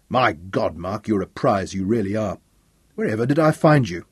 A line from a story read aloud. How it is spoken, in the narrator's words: He gave one last chuckle